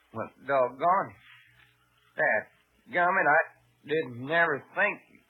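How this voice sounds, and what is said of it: Put-on Western cowboy accent. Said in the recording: “He's lost his Western accent. ... If I talk anything, I'd talk straight New York.”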